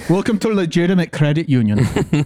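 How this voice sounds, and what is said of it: Put-on East German accent. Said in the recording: “an East German accent.”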